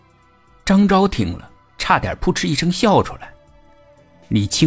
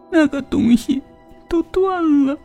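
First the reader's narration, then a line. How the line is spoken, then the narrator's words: Sobbing wife. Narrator (Chinese): 妻子痛哭道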